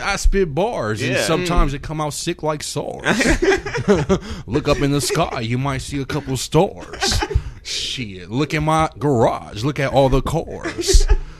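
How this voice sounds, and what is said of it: Put-on West Coast accent. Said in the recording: “I love the West Coast accent you had right there”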